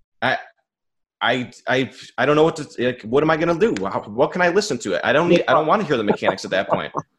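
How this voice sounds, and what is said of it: Raised, frustrated voice. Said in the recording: “sorry if I'm raising my voice,... cause it's frustrating... settle down, man.”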